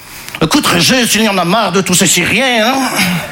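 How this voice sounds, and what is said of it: Put-on Belgian French accent. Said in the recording (French): “je prends l'accent belge parce que je sais pas faire l'accent chinois”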